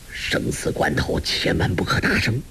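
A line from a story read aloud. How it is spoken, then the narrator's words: Low sharp command. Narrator (Chinese): 柯震恶低声喝道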